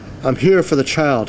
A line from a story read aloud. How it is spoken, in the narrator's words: said eagerly